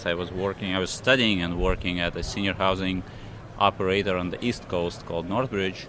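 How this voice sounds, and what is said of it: Russian accent. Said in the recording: “by my accent you can hear I'm not entirely from the United States. So I'm Russian origin”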